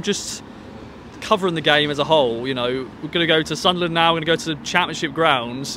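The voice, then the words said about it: Southern English accent. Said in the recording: “I was actually English ... my Southern accent”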